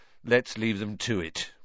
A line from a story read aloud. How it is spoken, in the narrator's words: Ron muttered to Harry